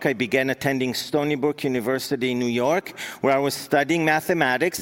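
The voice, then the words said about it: Israeli accent in English. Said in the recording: “she recognized my accent in English, and she asked me if I'm Russian... no, I'm not Russian, I'm Israeli”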